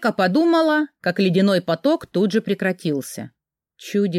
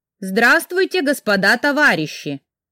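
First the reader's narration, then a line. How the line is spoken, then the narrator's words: Loud greeting. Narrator (Russian): громко поздоровалась я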